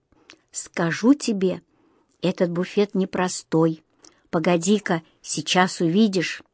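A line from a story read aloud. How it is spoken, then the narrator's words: Said quietly. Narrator (Russian): тихо сказал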